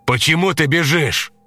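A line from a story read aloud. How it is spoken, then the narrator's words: Shouted. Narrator (Russian): Крикнул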